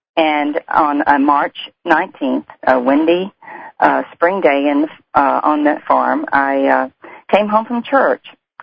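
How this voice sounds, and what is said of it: Deep South American accent. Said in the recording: “If you can't tell by the accent, I come from the Deep South, from the Bible Belt, and I grew up in Louisiana”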